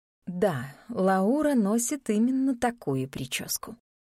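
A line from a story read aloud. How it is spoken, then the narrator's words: Sighing. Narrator (Russian): вздохнула тетушка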